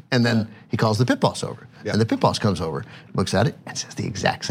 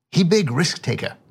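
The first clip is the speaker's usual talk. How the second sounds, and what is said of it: Put-on accent imitation. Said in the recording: “forgive the accent”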